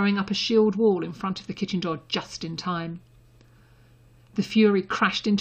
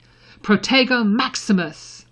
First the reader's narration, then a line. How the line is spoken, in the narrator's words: shouting